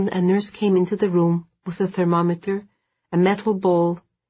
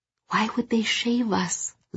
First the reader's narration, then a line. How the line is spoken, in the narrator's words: Louisa whispered